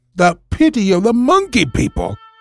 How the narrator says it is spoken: Baloo snorted

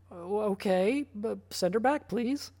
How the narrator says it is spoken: stammered

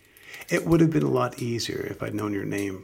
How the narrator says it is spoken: Prenz laughed

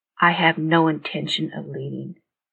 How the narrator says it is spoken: he said softly

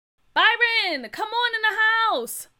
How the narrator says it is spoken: Bria yelled from the front door

